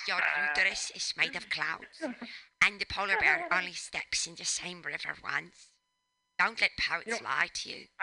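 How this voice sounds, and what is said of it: Imitates another person's voice. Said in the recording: “I'm going to do my Bjork. ... Bjork is the one accent I can do. It's the one character voice. ... you do a good Bjork. You do a much better Bjork.”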